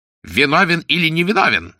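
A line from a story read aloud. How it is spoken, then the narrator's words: Male shout. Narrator (Russian): закричал он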